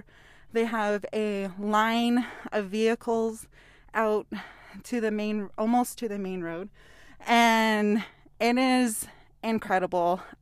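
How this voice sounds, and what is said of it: Out of breath. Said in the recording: “I'm a little bit out of breath ... So I'm a little out of breath”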